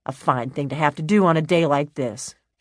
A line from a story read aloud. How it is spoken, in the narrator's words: said rather crossly